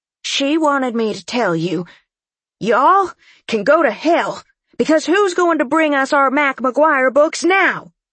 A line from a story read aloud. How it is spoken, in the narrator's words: She said loudly